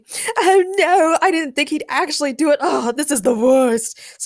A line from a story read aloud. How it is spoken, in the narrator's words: screamed Lestat